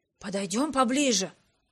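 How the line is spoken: Whisper. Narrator (Russian): шепнул он мне

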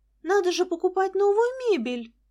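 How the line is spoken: Joyful exclamation. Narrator (Russian): радостно воскликнула Лиза

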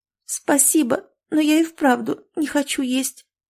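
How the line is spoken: Tearful, strained. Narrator (Russian): сквозь слезы выговорила Маруся

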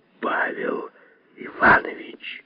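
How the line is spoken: Whisper. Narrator (Russian): Лазовский прошептал

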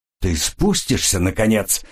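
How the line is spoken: Growl. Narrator (Russian): прорычал Келвин

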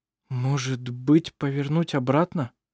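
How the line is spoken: Still quiet. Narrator (Russian): Все так же тихо произнес Петер

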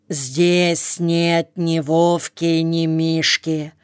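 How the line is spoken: Metallic voice. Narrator (Russian): начал было металлическим голосом командир

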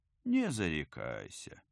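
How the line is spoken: Advising. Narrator (Russian): посоветовал Герман

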